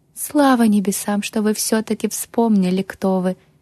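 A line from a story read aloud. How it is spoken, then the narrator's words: Relieved sigh. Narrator (Russian): облегченно вздохнула Милена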